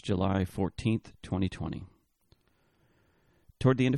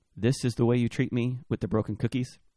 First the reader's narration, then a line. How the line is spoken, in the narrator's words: O'Brien asked Shandling, his voice slightly raised to make sure the comedy could be heard over the jet engines